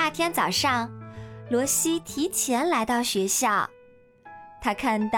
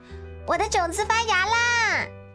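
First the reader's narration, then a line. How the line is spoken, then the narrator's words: Loud shout. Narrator (Chinese): 威尔利特已经抢先大声叫道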